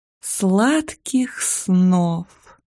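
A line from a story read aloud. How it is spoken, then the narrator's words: Sugary whisper. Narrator (Russian): Елейным голоском прошептала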